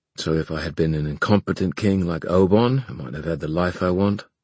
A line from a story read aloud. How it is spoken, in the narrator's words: Kieran said bitterly